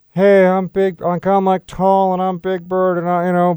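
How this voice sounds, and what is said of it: Attempted Big Bird character voice. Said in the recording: “can't do a Big Bird impression. Is that kind of close? No, not at all”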